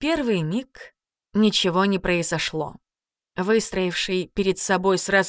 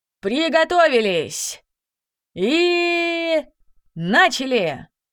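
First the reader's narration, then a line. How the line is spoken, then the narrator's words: Loud announcement. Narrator (Russian): мастер магического боя громко объявил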